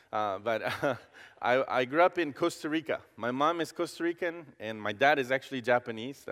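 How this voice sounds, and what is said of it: Non-American accent in English. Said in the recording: “I'm not American. You will tell from my accent”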